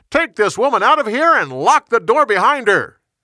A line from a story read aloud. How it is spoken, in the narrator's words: He shouted to his servants